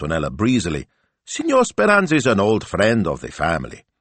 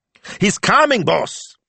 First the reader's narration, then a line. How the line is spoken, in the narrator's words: yelped Smilzo